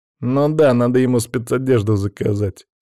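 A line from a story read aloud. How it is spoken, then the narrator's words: Nervous chuckle. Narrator (Russian): нервно хохотнул Павел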